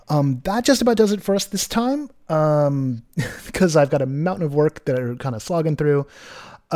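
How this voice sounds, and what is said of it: Tired, worn-out sounding voice. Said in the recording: “if you can hear it in my voice, like I'm getting a little burned out”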